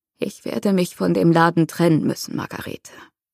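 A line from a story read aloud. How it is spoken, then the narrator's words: Croaking. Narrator (German): krächzte er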